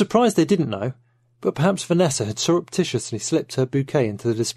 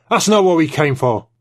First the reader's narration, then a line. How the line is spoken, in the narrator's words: Trevithick snapped